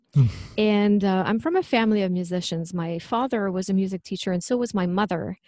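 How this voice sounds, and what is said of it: Quebec French accent. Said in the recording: “I'm originally from Quebec, so that's where the French accent comes from.”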